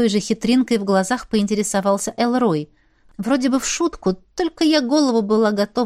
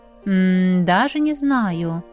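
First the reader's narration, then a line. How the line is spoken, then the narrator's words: Drawling, teasing. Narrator (Russian): протянул парень, дразня меня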